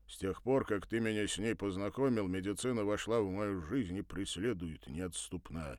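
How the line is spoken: Muttered. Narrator (Russian): пробурчал Кузя

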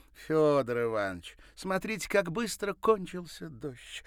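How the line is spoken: Exclaiming. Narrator (Russian): воскликнула Ирина

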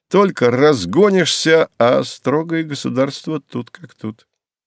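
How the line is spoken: Laughing. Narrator (Russian): рассмеялся Ануфриенко

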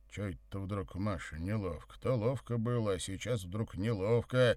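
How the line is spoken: Grumbling. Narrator (Russian): пробурчал Савва

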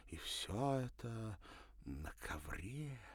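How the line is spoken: Breathless gasp. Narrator (Russian): выдохнула Софи

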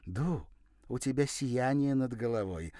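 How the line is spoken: Joyful woman. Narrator (Russian): радостно сообщила я

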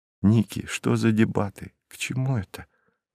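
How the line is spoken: Anxious whisper. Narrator (Russian): прошептала Ирина, почувствовав беспокойство

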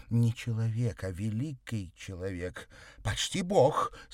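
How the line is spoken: Grandiloquent exclamation. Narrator (Russian): с пафосом воскликнула она

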